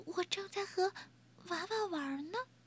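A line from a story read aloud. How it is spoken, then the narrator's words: Soft voice. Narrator (Chinese): 威勒轻声说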